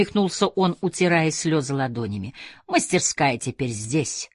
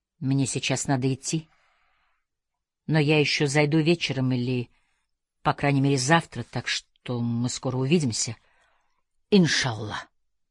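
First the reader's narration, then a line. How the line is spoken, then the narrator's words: Quiet reply. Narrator (Russian): ответил он тихо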